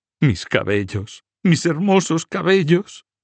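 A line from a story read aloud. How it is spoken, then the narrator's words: Sobbing. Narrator (Spanish): sollozaba Blanca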